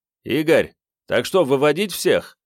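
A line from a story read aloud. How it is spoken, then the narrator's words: Shouted. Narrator (Russian): крикнул Ковальчук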